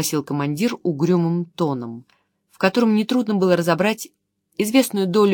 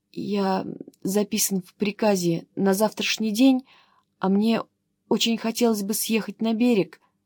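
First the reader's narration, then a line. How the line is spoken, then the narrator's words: Timid. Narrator (Russian): робко вымолвил он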